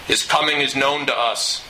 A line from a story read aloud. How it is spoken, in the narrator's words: a harsh and guttural voice growled from inside